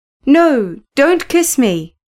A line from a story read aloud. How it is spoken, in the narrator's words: exclaimed